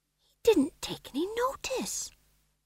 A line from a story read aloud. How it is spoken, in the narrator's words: whispered Tom John